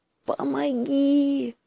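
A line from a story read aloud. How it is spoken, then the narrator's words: Whispering bear cub. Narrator (Russian): шепнул медвежонок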